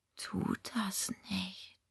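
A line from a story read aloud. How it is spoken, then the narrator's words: Whisper. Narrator (German): flüsterte Sebastian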